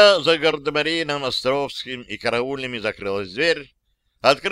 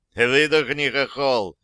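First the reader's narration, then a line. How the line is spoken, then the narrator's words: Mocking. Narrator (Russian): насмешливо проговорил второй, старший по званию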